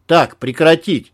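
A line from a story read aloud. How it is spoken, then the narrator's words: Barking shout. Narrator (Russian): рявкнул Малахов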